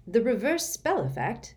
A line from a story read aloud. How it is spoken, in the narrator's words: said Sirius sharply